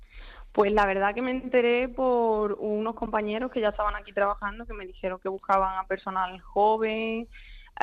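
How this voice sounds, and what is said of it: Andalusian Spanish accent. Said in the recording (Spanish): “el acento yo diría que eres de Huelva o de Andalucía”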